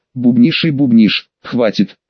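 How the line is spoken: Barely audible dry whisper. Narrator (Russian): хотел рявкнуть громко и с чувством, но из пересохшей глотки вылетел еле слышный шепоток

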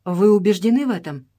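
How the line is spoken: Plain. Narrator (Russian): снова спросил Джордж

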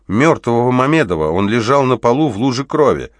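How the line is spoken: Wry snort. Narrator (Russian): оперативник хмыкнул

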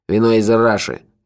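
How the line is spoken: Angry statement. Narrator (Russian): сердито сообщил ему Мохи

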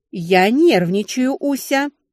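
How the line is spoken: Sharp bark. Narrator (Russian): рявкнула та

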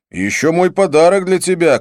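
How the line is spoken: Shout. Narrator (Russian): крикнул я

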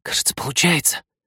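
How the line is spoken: Delighted whisper. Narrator (Russian): восхищенно прошептал он

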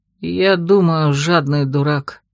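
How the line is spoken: Sigh. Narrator (Russian): вздохнул Мишель

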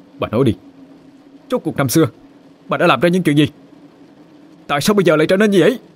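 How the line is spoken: Angry shouting. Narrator (Vietnamese): Nó tức giận mà quát lên

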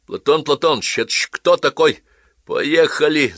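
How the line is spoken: Angry shout. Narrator (Russian): зло крикнул на него Недоширин

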